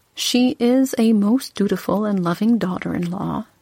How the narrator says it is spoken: he said

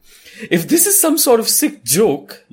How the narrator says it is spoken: you say indignantly, the words finally forming full sentences

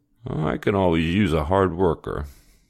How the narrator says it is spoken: grumbled

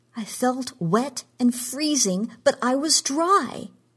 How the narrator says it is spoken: she cried

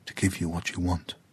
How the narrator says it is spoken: Kua'ai whispered to the tree

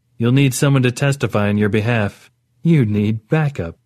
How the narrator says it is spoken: Orit said, with what was almost a laugh

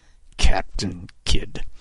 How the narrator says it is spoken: Kid muttered under his breath

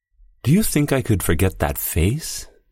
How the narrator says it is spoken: she murmured

